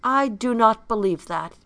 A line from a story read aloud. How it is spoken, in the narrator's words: he said